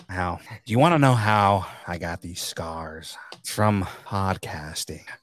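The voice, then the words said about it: Joker impression, pretty good. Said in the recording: “Give me your Joker voice. ... Oh, that's pretty good.”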